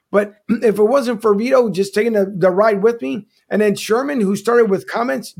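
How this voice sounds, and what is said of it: Strained voice, losing it. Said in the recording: “as I'm losing my voice here, it's been a long day.”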